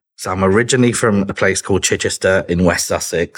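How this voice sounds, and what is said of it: British accent. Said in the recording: “obviously, the folks on the call can tell that you have a British accent.”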